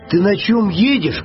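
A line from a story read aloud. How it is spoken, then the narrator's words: Bear cub shouting. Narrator (Russian): крикнул медвежонок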